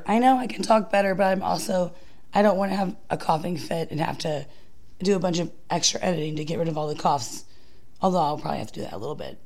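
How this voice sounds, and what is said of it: Slightly hoarse voice. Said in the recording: “Her voice is still a little hoarse”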